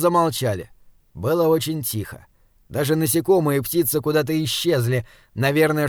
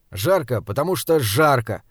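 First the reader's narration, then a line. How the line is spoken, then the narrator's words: Grumbling. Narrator (Russian): проворчал Саймон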